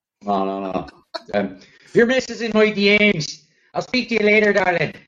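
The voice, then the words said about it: High-pitched imitation of another person. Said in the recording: “good impression ... if your voice is that high pitched, it's very difficult to sound threatening”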